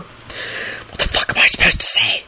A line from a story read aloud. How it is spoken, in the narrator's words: he hissed to her